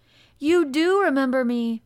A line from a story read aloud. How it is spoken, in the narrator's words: cried out